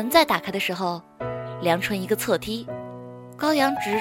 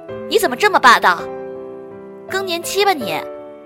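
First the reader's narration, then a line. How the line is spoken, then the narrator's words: Angry shout. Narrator (Chinese): 高阳也火了，大喊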